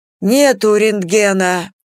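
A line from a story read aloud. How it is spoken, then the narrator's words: Wheezed, paramedic. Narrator (Russian): просипел фельдшер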